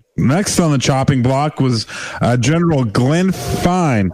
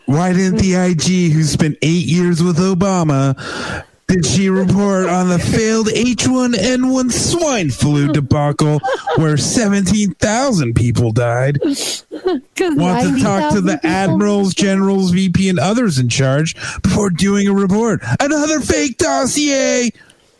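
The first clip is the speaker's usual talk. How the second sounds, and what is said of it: Imitates another person's voice. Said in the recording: “That was my impression.”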